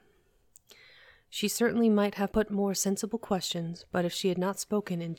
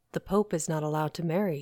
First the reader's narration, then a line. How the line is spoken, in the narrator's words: said the gentleman